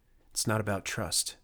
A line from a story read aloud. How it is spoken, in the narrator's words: muttered